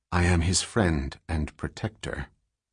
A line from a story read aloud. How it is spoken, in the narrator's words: Dors said calmly